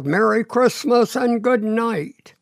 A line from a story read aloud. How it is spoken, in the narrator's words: The driver called out